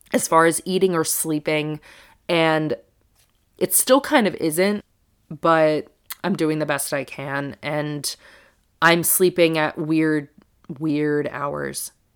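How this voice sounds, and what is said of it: Congested voice from a cold. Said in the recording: “I don't know if you can hear it in my voice, but I developed a little bit of a cold, cough, congestion ... this is not, you know, the most luxurious sounding thing ever”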